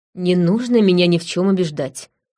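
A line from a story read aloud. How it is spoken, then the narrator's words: Wry scoff. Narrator (Russian): хмыкнула я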